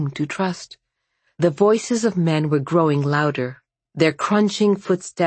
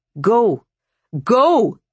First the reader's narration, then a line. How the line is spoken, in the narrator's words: shouted Varvara